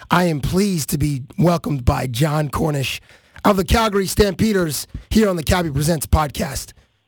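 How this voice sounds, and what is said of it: Hoarse, strained voice. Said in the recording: “Sorry about my voice, ... I started getting a little tickle in it ... 3 nights of just assaulting my voice, and it sounds like this. ... I've actually heard a few coaches with voices like that before ... that's just from yelling”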